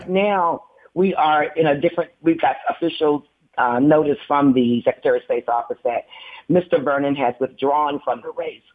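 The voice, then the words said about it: Slightly hoarse voice. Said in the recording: “I'm still dealing with a little bit of that hoarseness that I've had for the last couple of weeks.”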